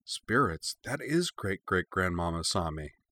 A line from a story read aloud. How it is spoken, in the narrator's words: Ryo breathed